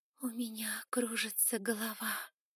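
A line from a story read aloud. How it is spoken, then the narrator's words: Moaning. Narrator (Russian): простонала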